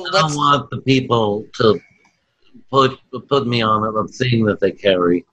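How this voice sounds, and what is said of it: Imitates another person's voice. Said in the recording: “That's a stellar, stellar Marlon Brando impression.”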